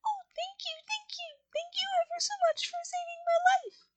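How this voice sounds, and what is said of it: Squeaky little voice. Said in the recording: “in a squeaky little voice”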